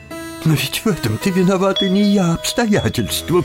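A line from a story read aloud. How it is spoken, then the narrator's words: Sobbing. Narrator (Russian): всхлипнула фрау Талер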